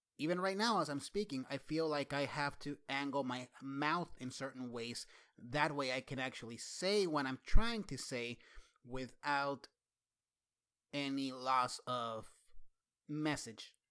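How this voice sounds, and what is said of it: Noticeable accent. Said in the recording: “My accent is very glaring to me.”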